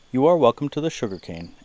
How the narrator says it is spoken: answered Aponita Lau

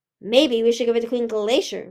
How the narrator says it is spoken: Winter snapped

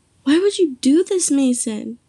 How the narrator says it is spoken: Isabella screamed at Mason

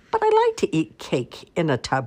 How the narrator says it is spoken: laughed the cat

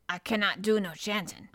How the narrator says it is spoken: said Binwetherstaff a trifle testily

